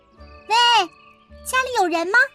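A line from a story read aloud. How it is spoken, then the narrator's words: Calling out. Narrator (Chinese): 金发姑娘就喊了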